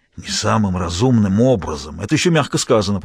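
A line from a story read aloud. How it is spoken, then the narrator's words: Grumble. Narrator (Russian): проворчал Перкинс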